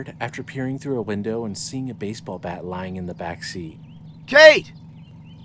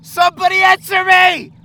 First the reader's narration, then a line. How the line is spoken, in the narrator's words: shouted, sprinting